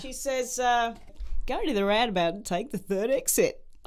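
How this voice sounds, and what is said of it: Put-on Australian accent. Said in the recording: “I've got to try and do my Australian accent ... Hang on, I have to get into Australian first”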